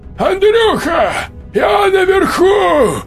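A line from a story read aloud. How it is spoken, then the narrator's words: Shouted. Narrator (Russian): крикнул Володька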